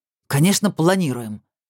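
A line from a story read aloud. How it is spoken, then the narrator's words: Angry interruption. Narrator (Russian): зло перебил его Сергей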